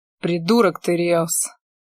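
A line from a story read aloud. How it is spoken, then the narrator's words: Mutter. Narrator (Russian): буркнул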